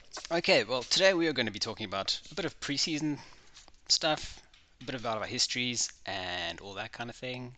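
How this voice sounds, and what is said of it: Fancy English-sounding accent. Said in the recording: “You got the fanciest little English accent there. ... very fancy, right? ... I don't sound very South African sometimes”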